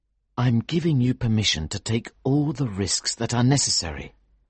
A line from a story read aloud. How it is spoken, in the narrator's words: said quietly